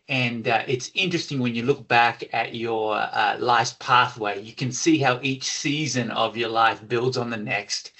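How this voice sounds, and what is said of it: Australian accent. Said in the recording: “I'm not sure you picked up on the accent, Steve, but originally Australia”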